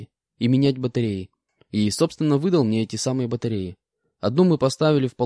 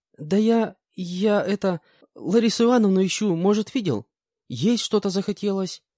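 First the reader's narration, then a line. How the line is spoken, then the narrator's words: Timid, girl. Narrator (Russian): как-то робко ответила девушка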